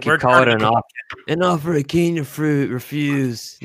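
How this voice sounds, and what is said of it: Bad Godfather impression. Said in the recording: “Worst Godfather impression I've ever heard ... I stuttered”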